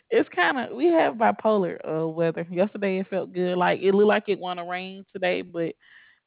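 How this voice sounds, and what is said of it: Alabama Southern US accent. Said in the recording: “I'm assuming you're in Alabama ... I can tell by your accent”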